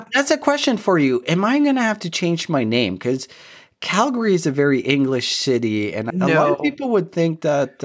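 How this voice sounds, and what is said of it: French Canadian accent. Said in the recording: “your little French Canadian accent is just so charming”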